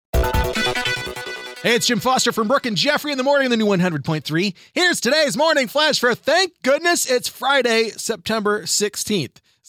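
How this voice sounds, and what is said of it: Excited loud yelling. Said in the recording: “I'm yelling because I'm excited”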